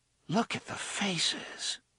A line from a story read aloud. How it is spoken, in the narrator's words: Susanna murmured